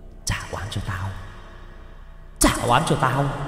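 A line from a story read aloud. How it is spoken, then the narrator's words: Continuous muttering. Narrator (Vietnamese): Miệng thì cứ liên tục lẩm bẩm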